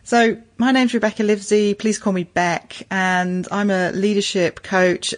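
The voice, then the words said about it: English accent. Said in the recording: “you can probably tell from my accent, I'm originally a Pommy, originally from the UK”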